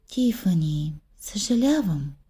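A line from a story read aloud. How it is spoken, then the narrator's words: Plain. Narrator (Bulgarian): каза майка й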